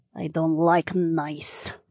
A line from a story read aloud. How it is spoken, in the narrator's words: Valera sneered